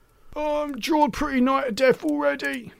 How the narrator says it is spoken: moaned John

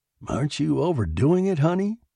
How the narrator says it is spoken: he asked uneasily

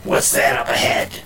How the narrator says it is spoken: the voice growled

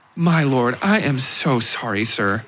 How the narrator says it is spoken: she said

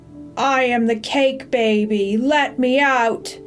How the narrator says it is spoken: shouted a small, angry voice

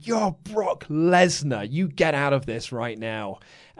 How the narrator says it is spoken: Paul Heyman on the outside screaming

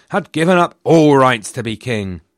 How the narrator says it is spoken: thundered

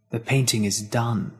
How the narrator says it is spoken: the devil whispered

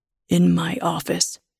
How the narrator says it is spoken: says in a low voice

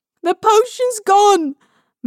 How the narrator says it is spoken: Mary shrieks

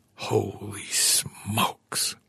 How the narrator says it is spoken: Arnaud whispered

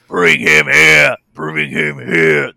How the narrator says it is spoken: Their deep voices rumbling as they're excited to get this opportunity to murder somebody who has wronged their captain

